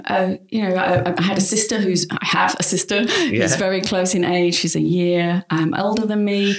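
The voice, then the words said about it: West Yorkshire English accent. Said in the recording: “maybe you didn't grow up in Australia ... a small village in West Yorkshire ... You can't tell by my accent”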